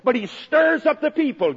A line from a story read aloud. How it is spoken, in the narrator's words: gasped Caiaphas, his face visibly flushed